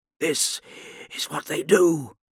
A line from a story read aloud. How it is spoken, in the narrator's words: Eidolon muttered to himself